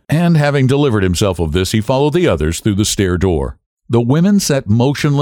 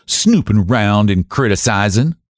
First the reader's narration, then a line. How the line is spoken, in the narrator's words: she said testily